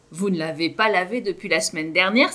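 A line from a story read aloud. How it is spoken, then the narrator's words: Exclaimed. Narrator (French): s'exclame Kevin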